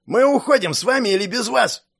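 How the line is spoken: Yelled. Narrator (Russian): завопил Верзила

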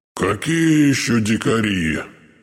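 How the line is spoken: Offended grumble. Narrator (Russian): обиженно пробурчал Акинфий Петрович

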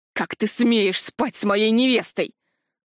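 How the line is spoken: Growling. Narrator (Russian): рычал Тарграш

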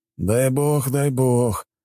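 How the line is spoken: Young man's sigh. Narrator (Russian): вздохнул парень, 25 лет от роду

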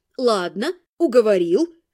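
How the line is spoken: Menacing. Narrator (Russian): грозно кивнула я

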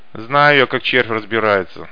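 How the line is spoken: Grumbling. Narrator (Russian): заворчал малек

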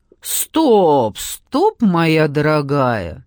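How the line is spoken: Loud interruption. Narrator (Russian): громко перебил Марат

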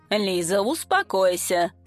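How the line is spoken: Sniffling grumble. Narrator (Russian): пробурчал он, шмыгая носом

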